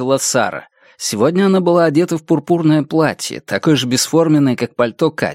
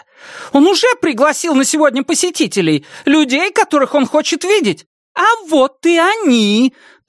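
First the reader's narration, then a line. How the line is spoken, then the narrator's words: Triumphant shout. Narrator (Russian): торжествующе крикнула она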